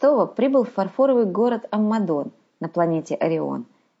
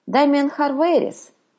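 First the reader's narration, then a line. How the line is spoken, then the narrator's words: Astonished exclamation. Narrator (Russian): изумленно воскликнул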